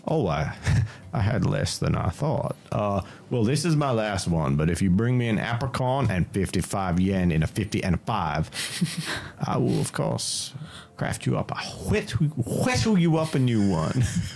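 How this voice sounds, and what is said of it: Put-on character voice. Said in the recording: “This will be my next long-term character voice.”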